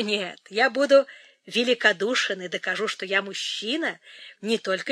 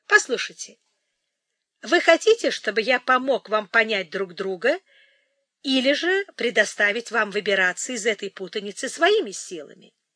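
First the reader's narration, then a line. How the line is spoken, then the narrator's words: Laughing. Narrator (Russian): Он засмеялся и прибавил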